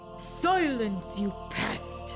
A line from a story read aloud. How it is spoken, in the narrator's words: snarled one of the Santas